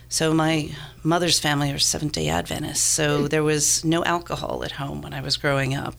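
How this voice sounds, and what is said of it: Gravelly, hoarse voice from a cold. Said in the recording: “I do not normally sound like I gargle with gravel and drink whiskey shots ... I've got a bit of a cold.”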